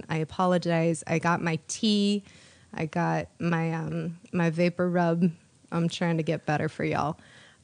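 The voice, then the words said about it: Congested voice from a cold. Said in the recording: “I have a cold right now. ... if I sound a little different,”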